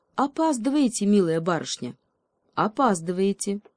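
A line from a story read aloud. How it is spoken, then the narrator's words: Strict, pedantic tone. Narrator (Russian): Строгим тоном пунктуального ученого отметил принц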